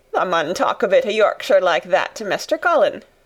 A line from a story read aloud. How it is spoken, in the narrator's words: Dickon chuckled